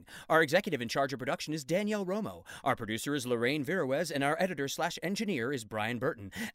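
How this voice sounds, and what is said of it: Announcer voice. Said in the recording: “my announcer voice”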